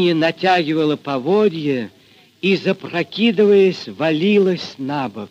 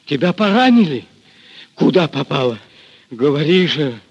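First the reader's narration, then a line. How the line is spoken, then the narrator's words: Hoarse question. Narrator (Russian): хрипло спросил Григорий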